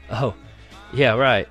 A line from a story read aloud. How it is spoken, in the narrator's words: I made myself laugh and say